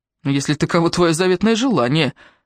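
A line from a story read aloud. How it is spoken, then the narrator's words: Angry. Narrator (Russian): ответил он зло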